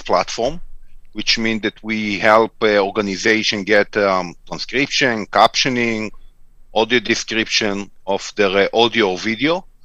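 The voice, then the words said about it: Israeli accent. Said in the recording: “you've got an accent ... I'm originally from Tel Aviv. So this is where the accent comes from.”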